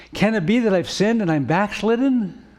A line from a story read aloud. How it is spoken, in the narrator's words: Alarmed, exclaimed